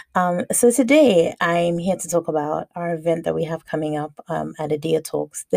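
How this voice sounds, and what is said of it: Slightly hoarse voice. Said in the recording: “Excuse my voice this evening. I don't know what's going on. I sound a little bit hoarse, or I feel a little bit hoarse”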